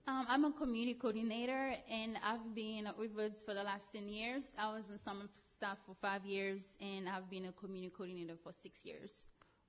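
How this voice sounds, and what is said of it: Slight Haitian accent. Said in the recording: “you got a little bit of an accent. ... I am from Haiti”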